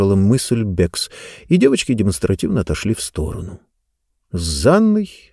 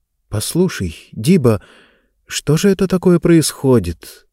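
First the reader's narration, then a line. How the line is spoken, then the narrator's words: Anxious question, deep sigh. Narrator (Russian): тревожно спросила она и глубоко вздохнула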